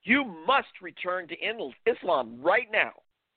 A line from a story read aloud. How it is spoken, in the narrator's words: My mother became outraged, screaming